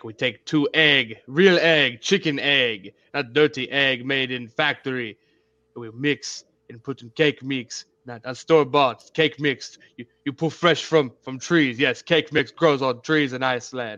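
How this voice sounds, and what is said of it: Mock Russian-sounding foreign accent. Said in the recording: “He's from Finland. ... he sounds Russian.”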